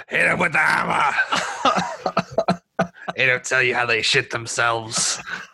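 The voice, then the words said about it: Impression of Robert Baratheon. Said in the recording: “Robert Baratheon ... I could talk like him all day”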